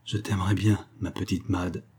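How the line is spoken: Very soft murmur. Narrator (French): il murmura tout bas

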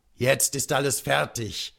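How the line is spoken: Called out. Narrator (German): rief er endlich

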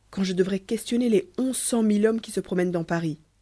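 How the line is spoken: Exclaiming. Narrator (French): s'écria Lecoq

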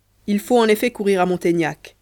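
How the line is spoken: Plain. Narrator (French): lui dit-il

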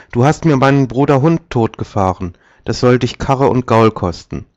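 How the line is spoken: Calling, sparrow. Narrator (German): rief der Sperling

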